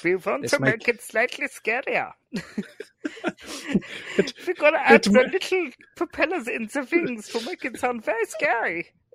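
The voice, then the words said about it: Put-on German accent. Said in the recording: “I love your German accent.”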